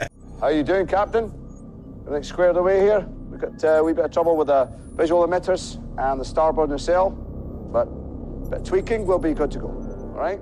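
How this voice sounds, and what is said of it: Scottish accent engineer impression. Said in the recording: “his Scottish engineer impression”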